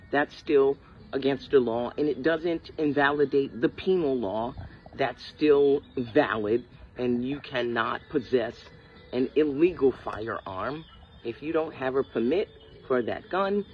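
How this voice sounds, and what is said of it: New York Brooklyn accent. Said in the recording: “you don't hear this woman's accent? ... Brooklyn. I think she's Brooklyn or Queens.”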